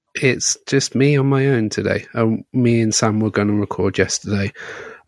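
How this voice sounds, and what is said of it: Hoarse, strained voice. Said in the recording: “I lost my voice at the weekend ... lost my voice.”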